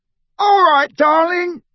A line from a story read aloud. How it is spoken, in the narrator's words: the drunkest of the men on the other pavement was yelling